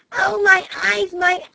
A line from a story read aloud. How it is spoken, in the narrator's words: she cried